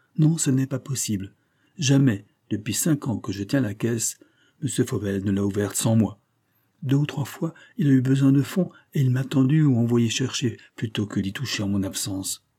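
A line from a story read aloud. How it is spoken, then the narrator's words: Deeply discouraged tone. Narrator (French): reprit-il d'un ton de découragement profond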